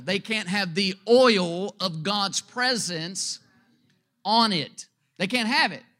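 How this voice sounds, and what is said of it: Speaks with a noticeable accent. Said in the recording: “Don't let my accent mess you up there.”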